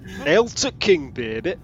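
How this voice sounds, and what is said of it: Northern English accent. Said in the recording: “A northern accent.”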